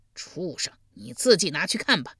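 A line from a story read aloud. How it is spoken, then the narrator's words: Cold laugh. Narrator (Chinese): 献公冷声一笑道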